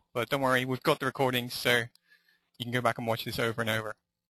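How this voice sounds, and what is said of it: Mixed English and Irish accent. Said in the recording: “my crazy English / Irish accent”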